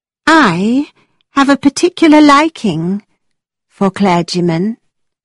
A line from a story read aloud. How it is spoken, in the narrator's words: Isabella said, in a rather dreamy voice